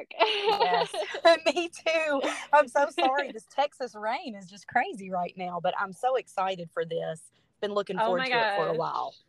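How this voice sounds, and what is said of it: Speaker with a noticeable accent. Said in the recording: “your accent is everything”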